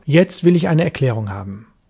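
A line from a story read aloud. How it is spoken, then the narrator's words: Sharp. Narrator (German): sagte ich scharf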